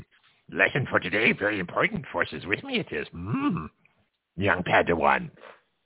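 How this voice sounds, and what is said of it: Pretty good Yoda impression. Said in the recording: “That's actually a pretty good Yoda accent.”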